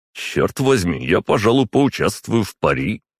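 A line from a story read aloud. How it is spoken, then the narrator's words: Smirking young man. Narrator (Russian): хмыкнул парень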